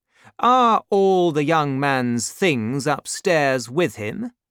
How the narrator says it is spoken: asked the stranger

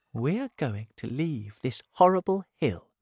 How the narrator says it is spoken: she said kindly

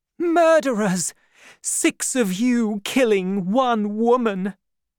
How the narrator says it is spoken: Suddenly, she cried out

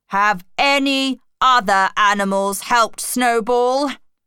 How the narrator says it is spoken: asked Napoleon loudly

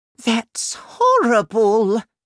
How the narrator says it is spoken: cried the Queen

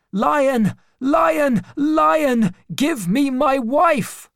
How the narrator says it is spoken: making lots of noise, screaming and shouting

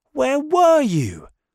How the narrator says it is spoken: shouted

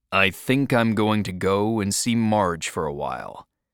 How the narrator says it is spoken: Dickie said flatly

